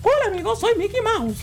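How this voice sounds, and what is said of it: Imitated Mickey Mouse cartoon voice. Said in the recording (Spanish): “imitación de voz”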